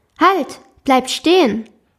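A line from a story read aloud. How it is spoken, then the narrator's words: Sudden call. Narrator (German): rief es plötzlich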